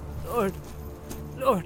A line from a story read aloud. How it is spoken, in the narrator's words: began Merry brokenly